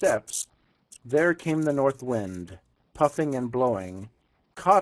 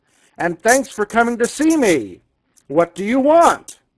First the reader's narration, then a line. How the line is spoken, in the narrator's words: answered the North Wind, for his voice was loud and gruff